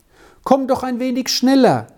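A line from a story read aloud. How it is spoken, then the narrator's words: Eager call. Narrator (German): rief eifrig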